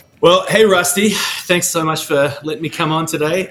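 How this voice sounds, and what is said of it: Australian accent. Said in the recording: “your accent, you ain't from around here ... I'm originally from Australia”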